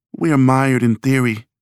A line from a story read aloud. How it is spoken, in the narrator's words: said, with a sigh